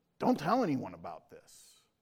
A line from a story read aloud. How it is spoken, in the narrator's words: Jesus roughly told this man